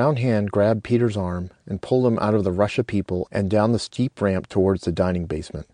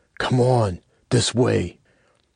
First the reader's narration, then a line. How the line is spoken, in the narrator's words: a voice whispered urgently in his ear